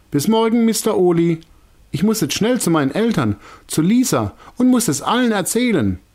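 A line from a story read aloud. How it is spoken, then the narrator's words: Calling after someone. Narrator (German): ruft sie ihm noch zu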